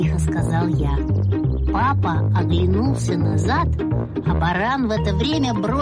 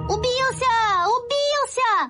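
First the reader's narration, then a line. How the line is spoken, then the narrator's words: Shout. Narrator (Russian): закричал я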